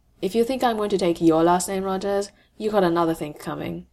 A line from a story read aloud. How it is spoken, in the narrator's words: says, as flatly as he can manage, when he just wants to smile